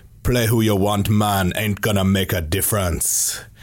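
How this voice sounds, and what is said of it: Put-on accent. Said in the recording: “that's a nice accent.”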